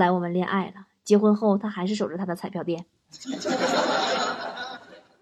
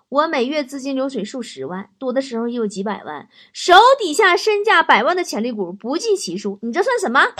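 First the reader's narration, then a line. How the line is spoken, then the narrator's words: Laughing heartily. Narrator (Chinese): 女方哈哈大笑说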